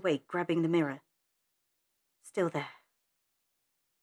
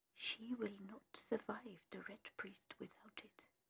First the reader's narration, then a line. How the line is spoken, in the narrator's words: a soft, feminine voice whispering